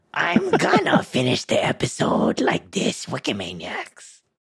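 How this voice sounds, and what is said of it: Ghoul and goblin character voice. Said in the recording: “ghoul and goblin voice”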